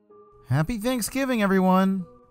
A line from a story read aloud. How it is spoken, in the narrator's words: shouted